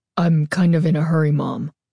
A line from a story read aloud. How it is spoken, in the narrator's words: Carly Beth called, her voice deep and raspy inside the mask